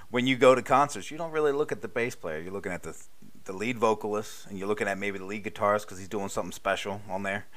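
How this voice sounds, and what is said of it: Non-Southern American accent. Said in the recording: “clearly my accent is not from the South”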